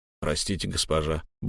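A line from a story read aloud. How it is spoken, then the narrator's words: Guard grumbling. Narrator (Russian): буркнул стражник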